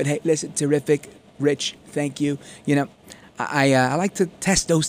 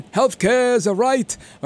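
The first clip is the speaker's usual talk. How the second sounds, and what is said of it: Bernie Sanders impression. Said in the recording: “my bernie sanders impression”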